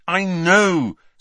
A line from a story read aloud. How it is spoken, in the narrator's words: said Harry impatiently